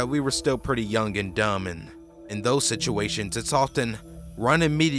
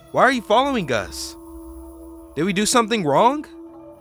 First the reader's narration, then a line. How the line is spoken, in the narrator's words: we yelled